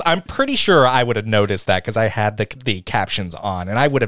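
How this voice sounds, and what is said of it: Nerdy Valley-style mocking voice. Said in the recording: “did a nerd voice for me ... That was my Valley voice, but it didn't work.”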